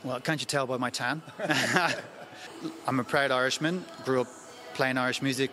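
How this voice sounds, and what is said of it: Irish Dublin accent. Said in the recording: “by your accent, you grew up in Dublin”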